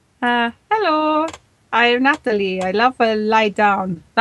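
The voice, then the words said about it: Put-on Italian-sounding accent. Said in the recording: “That's almost Italian... It was a completely Italian accent.”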